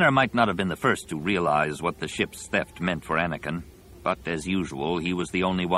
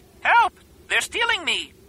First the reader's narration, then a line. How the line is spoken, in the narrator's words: screeched